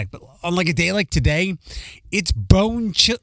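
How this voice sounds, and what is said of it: Philadelphia accent slipping out. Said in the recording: “My Philly accent just came out.”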